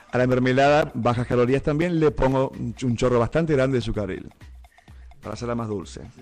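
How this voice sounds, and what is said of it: Radio announcer voice. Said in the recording (Spanish): “Tengo voz de locutor”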